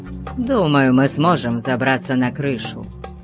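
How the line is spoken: Plain. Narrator (Russian): сказал он

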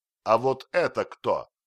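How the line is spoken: Friendly shout. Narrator (Russian): дружелюбно закричал Остап

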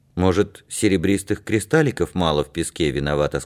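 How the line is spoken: Plain. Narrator (Russian): сказал Игнатик

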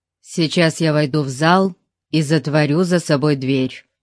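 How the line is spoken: Stern. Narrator (Russian): строго сказал

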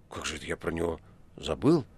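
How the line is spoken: Mumbled. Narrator (Russian): пробормотал Никанор Иванович

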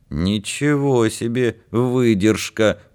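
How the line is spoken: Grumbling. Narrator (Russian): проворчал Витька Соломеин

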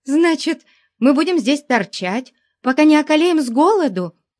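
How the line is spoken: Furious yell. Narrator (Russian): В ярости заорала она

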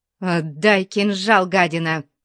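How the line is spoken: Through gritted teeth. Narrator (Russian): процедила она сквозь зубы

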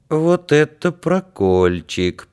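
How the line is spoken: Sad. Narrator (Russian): проговорил Андрюшка печально

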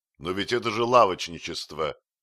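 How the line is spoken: Shouting. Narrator (Russian): закричал

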